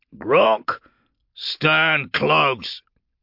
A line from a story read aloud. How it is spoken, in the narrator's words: he barked